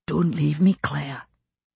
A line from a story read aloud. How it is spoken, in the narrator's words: Jamie whispered, very close to my ear